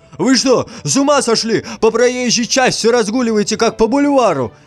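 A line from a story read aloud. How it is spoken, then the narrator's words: Shouting. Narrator (Russian): закричал шофер автобуса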